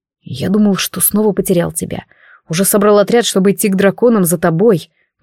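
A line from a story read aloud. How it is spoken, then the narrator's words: Whisper. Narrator (Russian): прошептал он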